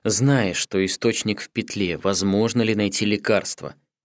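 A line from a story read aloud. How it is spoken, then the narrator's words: Calm lowered-voice question. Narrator (Russian): Понизив голос, спокойно спросил Каору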